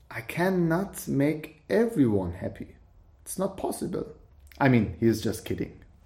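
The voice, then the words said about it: Thick Persian accent. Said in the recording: “You have a thick, sexy Persian accent.”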